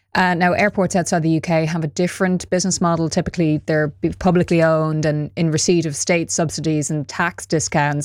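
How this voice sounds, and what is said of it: Irish Dublin accent. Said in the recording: “Dublin Airport, which I'm judging from my accent, you might know that's where I'm from.”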